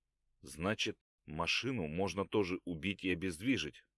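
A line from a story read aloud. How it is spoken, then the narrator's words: Distracted mutter. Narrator (Russian): пробормотал скандинав, напряженно соображая что-то в голове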